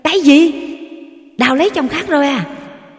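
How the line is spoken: Shout. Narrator (Vietnamese): Phan hét lên

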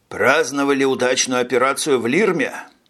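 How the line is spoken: Flat colorless tone. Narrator (Russian): бесцветным тоном поинтересовался Минц

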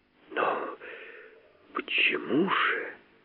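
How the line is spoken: Quiet inquiry. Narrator (Russian): тихо осведомился черный человек

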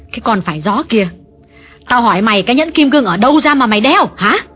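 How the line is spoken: Harsh woman. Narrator (Vietnamese): Bà Thiết gay gắt nhắc lại

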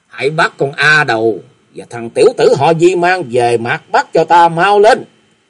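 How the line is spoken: Loud murderous shout. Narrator (Vietnamese): Kim Ngô Cung chủ nhân vẽ sát cơ nổi ở trên mặt rồi lớn tiếng quát

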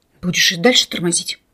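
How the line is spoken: Wounded man's angry hiss. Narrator (Russian): зло прошипел раненый

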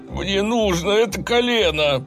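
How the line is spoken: Moaning plea. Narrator (Russian): простонал он

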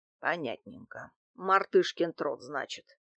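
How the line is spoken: Muttered. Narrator (Russian): пробормотал Дмитрий Иванович

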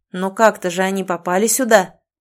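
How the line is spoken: Ruler, angry breath, clenched teeth. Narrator (Russian): зло выдохнул властелин, стискивая зубы

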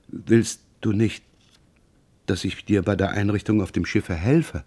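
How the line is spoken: Mother's fading voice. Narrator (German): seine Mutter, die mit fast verlöschender Stimme fragte

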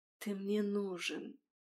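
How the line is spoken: Whispered. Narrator (Russian): шепнул ее голос

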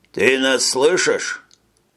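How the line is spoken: Plain. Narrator (Russian): спросил Мартель

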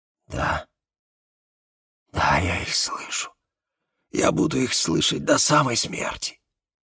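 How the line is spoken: Whispered confession. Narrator (Russian): шепотом признался он

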